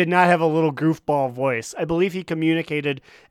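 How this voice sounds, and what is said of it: Usual voice. Nothing is said of it.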